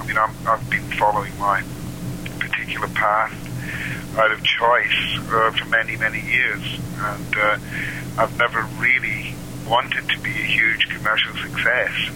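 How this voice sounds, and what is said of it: Scottish accent. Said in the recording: “his delightful Scottish accent”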